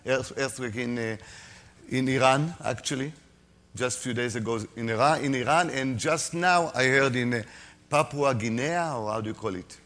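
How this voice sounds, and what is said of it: Non-native English accent. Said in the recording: “I'm sorry for my accent. You will need to improve your English in order to understand every word of mine.”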